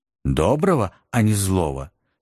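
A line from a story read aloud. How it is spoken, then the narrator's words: Plain. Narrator (Russian): спросила Елизавета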